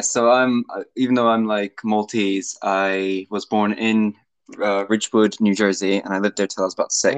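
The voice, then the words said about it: Slight American accent. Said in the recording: “you have a little bit of an American accent”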